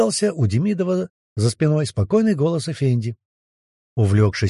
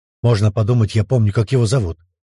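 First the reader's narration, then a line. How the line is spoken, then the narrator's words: Merchant grumbling. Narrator (Russian): проворчал купец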